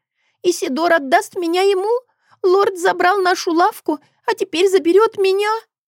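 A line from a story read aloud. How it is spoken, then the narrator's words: Sobbing. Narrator (Russian): всхлипнула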